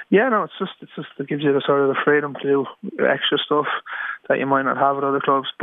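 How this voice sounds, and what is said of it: Dublin Irish accent. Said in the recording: “as we hear from your accent, you're a proud Dub”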